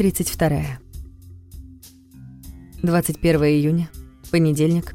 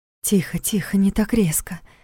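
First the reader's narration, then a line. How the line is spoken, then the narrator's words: Soft, gentle. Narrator (Russian): мягко произнес голос жены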